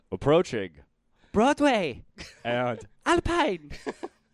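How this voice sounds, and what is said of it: Put-on accent, bus announcer voice. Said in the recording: “That was my Chinatown impersonation.”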